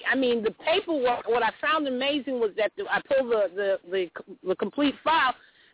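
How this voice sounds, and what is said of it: New York accent. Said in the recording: “I hear from your accent ... that you're from New York”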